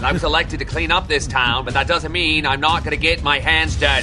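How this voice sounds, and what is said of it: Upscale Kennedy-type Boston accent. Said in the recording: “With the upscale Kennedy-type Boston accent.”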